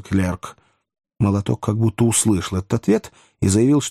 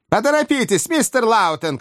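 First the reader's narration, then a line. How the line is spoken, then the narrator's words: Shout. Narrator (Russian): крикнул Перкер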